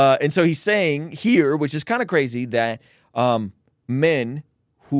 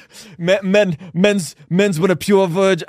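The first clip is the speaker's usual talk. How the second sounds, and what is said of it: Imitates another person's accent. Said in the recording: “I love the accent”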